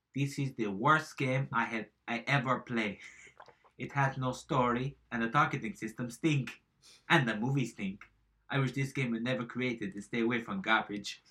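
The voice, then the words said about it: Put-on accent reading a review. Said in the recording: “I'm saying it in the wrong accent.”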